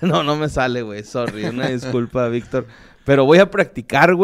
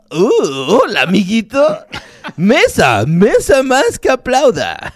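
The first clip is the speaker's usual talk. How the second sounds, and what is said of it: Imitating Barney's voice. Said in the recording (Spanish): “para hacer voz de Barney tienes que empezar con...”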